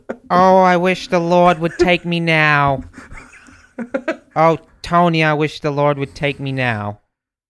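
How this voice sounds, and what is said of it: Character voice of a mother. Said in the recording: “you're the mother, and you got to do a impression”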